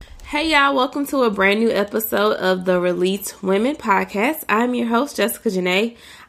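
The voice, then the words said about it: Very nasal, congested voice. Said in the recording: “I sound very nasally,”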